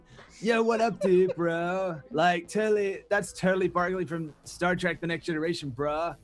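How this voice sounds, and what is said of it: Casual colloquial dude-bro accent. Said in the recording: “doing some random different colloquial accent ... Nailed it ... Spot on”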